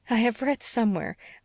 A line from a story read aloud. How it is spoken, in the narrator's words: laughed Anne